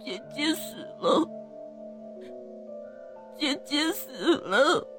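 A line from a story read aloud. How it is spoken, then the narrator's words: Child crying. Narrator (Chinese): 这孩子一边哭一边说着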